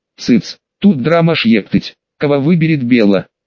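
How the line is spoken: Snorting. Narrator (Russian): фыркнул я

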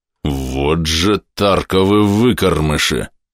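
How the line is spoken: Slow growl, giant. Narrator (Russian): медленно прорычал гигант

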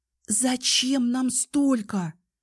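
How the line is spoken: Whispered. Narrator (Russian): прошептала я

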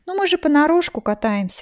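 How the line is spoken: Objecting with a sigh. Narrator (Russian): возразила и вздохнула

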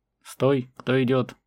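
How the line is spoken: Sentry's shout. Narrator (Russian): Как полагалось, крикнул часовой

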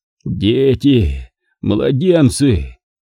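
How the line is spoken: Weak moan. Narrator (Russian): Ослабев, простонал Равилан

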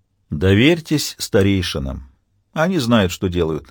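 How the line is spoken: Plain. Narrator (Russian): говорит Тит

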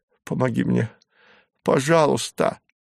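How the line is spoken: Sobbing. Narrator (Russian): зарыдала

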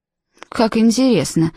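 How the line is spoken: Sulky mutter. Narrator (Russian): пробормотала надутая Фенни

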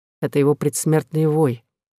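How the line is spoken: Calm. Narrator (Russian): сказал Дюлют спокойно

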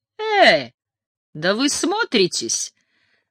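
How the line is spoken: Giggle. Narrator (Russian): Джан хихикнула

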